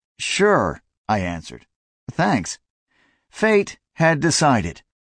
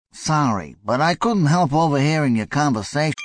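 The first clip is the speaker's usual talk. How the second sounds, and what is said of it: Strong New York accent. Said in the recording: “He spoke American English with a profound New York accent.”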